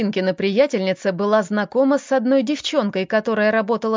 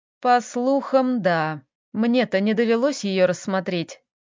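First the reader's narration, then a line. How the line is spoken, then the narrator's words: Annoyed sigh. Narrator (Russian): вздохнул с досадой Лёха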